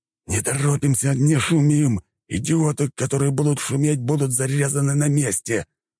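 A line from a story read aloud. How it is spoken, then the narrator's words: Hiss. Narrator (Russian): прошипел рядовой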